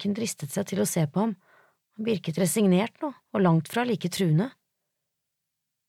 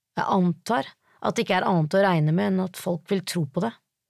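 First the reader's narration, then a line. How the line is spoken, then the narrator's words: Muttering to himself, sighing. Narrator (Norwegian): sa han for seg selv og sukket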